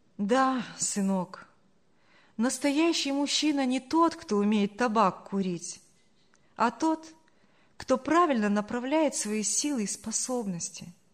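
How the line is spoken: Sad. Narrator (Russian): грустно проговорила Саша

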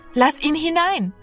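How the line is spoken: Calling out. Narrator (German): rief Martina

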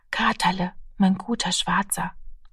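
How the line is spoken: Child whispering. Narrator (German): flüsterte das Kind

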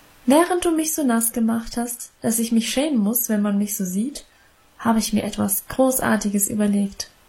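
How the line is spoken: Plain. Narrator (German): sagte sie

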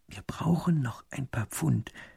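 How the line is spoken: Whispered. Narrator (German): flüstert

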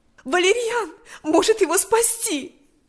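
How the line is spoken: Exclamation. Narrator (Russian): воскликнула она

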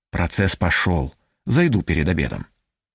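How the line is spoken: Barely audible. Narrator (Russian): чуть слышно сказал

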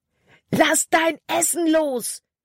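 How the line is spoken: Shouted. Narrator (German): schrie Caleb

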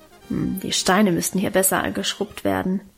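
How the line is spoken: Grumbling to herself. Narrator (German): brummte vor sich hin

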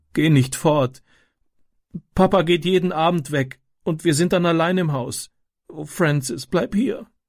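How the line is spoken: Sobbing. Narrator (German): schluchzte sie

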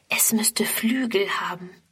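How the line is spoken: Whispered. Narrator (German): flüstert Friedrun

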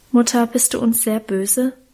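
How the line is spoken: Anxious question. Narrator (German): fragte Karl ängstlich

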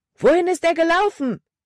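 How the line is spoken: Called out loudly. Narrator (German): rief Caleb laut

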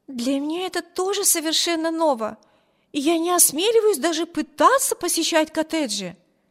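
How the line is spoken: Exclaiming. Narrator (Russian): воскликнула Эми

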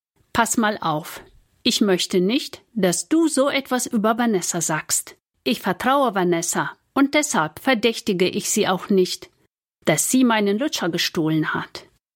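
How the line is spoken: Firm voice. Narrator (German): sagt mit fester Stimme

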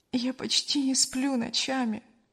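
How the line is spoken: Sighing. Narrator (Russian): вздохнула Кристина

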